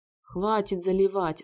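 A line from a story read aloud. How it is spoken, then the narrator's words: Laughing. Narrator (Russian): рассмеялся Дилан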